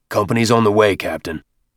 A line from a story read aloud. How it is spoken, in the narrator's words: Avery growled into his throat mic